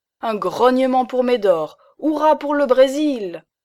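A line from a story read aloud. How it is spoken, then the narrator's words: Shouting. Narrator (French): cria Lousteau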